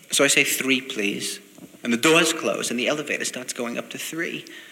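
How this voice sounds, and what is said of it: Slight New York accent. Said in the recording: “I talk, I think, with a slight New York accent.”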